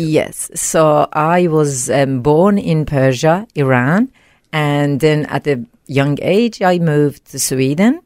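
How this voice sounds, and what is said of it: Slight foreign accent. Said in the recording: “listeners can hear a little accent there”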